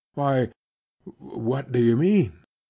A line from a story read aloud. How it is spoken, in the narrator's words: stammered